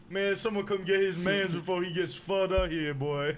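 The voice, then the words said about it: Street New York accent. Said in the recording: “some like real New Yorker like ... there's nothing I love more than a New York accent, man. Yeah, like the street New York.”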